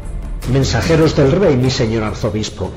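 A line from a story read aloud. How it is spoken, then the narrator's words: Loud announcement. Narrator (Spanish): anunció con voz fuerte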